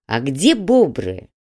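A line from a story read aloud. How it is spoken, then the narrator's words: Snide question. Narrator (Russian): ехидно поинтересовался Грег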